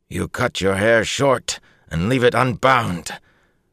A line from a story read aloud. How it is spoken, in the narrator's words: Bukama spat the words